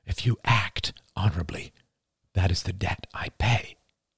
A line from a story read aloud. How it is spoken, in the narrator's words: whispered Oliver